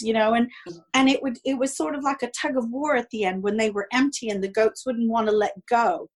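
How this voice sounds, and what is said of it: North American accent. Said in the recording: “Our listeners will be able to tell from your accent that you are from somewhere in North America”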